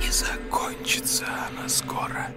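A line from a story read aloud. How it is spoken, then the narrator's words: Purring. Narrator (Russian): промурлыкал Коля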